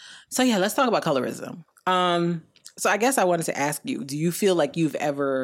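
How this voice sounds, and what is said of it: Usual voice. Nothing is said of it.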